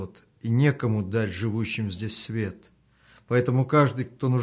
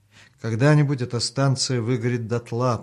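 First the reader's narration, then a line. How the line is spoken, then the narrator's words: Gloomy musing aloud. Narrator (Russian): подумал вслух Артем, уныло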